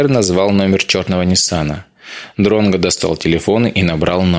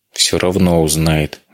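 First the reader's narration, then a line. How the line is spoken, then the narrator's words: Sigh. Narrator (Russian): вздохнул Эдгар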